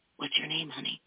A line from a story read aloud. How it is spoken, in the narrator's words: she whispered